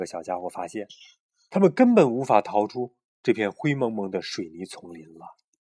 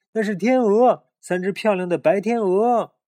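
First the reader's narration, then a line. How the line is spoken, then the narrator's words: Shouting. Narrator (Chinese): 小鼹鼠大叫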